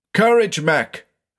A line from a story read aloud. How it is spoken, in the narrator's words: shouted